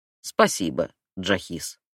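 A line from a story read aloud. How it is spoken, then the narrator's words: Grumbled. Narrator (Russian): пробурчал Асим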